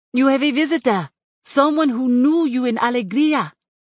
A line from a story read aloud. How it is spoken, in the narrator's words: she shouted